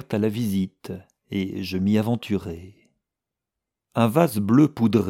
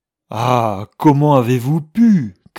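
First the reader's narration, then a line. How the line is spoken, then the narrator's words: Shouted. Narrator (French): criai-je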